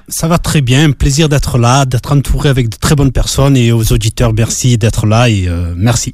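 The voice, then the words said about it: Southern French accent. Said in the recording (French): “cet accent venant du sud de la France”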